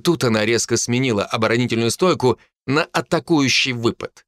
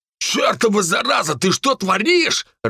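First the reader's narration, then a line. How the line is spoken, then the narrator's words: Growl. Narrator (Russian): рыкнул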